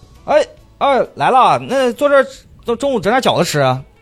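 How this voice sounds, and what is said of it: Imitated Northeastern Chinese accent. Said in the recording (Chinese): “家里面全都讲东北话的”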